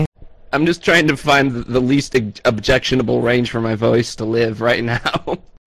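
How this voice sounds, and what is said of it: Hoarse, strained voice. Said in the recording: “your voice will drop down here, and then we can't hear you... He's sick... my voice is shot”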